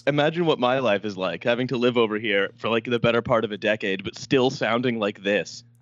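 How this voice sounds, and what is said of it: Thick Canadian accent. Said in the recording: “Can't really scrub off the Canadian. ... It's a thick, syrupy, almost like maple syrupy-like substance”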